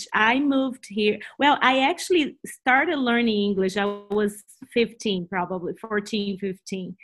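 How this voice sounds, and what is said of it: Portuguese-accented English. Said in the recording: “I always have Portuguese first in my mind ... my English will be worse and my accent will be stronger”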